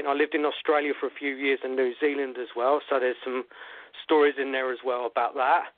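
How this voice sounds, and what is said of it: British accent. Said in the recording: “as you can tell by my accent, I come from the UK”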